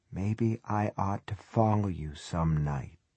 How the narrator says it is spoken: Wheelock whispers in his ear

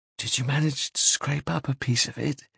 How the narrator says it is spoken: He whispered

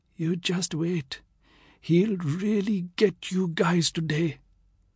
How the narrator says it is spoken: One of the poor idiots whose parents never allowed them to go to cathedral whispered viciously into my ear

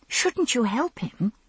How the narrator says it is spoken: I murmured to Murtagh, out of the corner of my mouth

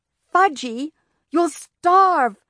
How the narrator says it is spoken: my mother cried

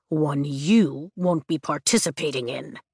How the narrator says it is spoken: Taryn grumbles

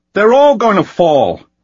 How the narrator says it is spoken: Anakin shouted

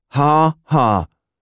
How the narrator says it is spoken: I replied dryly

